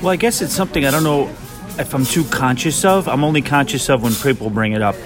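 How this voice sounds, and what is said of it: New York City accent. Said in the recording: “he has the most wonderful New York City accent ... I love his New York accent”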